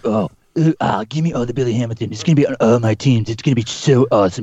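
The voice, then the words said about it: Imitates another person's voice. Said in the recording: “that was my impression ... for Justin”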